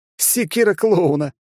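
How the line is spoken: Laughing cat. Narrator (Russian): рассмеялся кот

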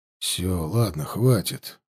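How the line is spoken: Muttered. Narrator (Russian): буркнул Лешка

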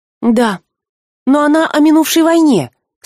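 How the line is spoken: Awed, horrified exclamation. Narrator (Russian): со священным ужасом воскликнула девушка

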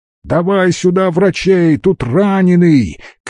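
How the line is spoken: Shouted reply. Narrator (Russian): крикнул в ответ лис

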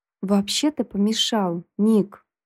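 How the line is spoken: Through gritted teeth. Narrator (Russian): Процедил Майкл

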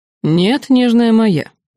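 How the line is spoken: Mocking. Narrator (Russian): насмешливо ответил он

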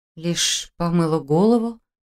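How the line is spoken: Confused mumble. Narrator (Russian): Растерянно пробормотала я

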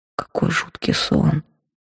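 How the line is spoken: Muttering. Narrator (Russian): пробормотала я

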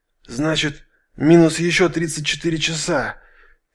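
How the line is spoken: Hoarse wheezing general. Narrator (Russian): сипло задышал генерал

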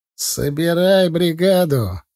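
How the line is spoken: After laughter, plain. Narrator (Russian): отсмеявшись, сказал Сачан

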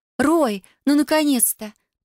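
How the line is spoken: Cooing young woman. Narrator (Russian): проворковала девушка

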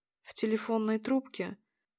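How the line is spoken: Very quiet voice. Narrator (Russian): Игорь не шептал, но говорил так тихо

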